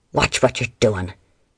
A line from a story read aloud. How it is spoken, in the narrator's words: he barked when his men practically squished him through the door